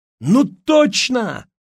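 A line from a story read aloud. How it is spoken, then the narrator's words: Exclaimed. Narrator (Russian): воскликнул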